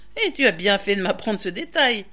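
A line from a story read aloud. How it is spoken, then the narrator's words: Sneering. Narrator (French): ricana Touche-le-Soleil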